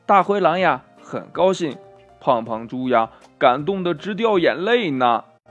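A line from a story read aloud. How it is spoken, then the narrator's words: Children laughing, shouting. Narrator (Chinese): 这小朋友们笑着喊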